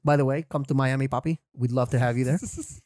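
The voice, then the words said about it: Put-on Cuban accent. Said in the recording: “put on the Cuban accent.”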